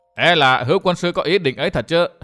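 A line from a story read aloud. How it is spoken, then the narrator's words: Startled then loud laughing. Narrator (Vietnamese): Độc Nhãn Giảo Hồ sửng sốt, đoạn liền biến sắc mặt cũng ha hả cười to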